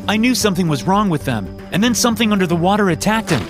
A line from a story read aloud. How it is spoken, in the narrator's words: I said desperately